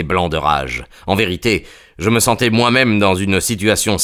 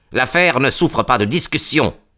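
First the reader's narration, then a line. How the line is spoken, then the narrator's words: Curt reply. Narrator (French): m'a-t-il répondu d'un ton sec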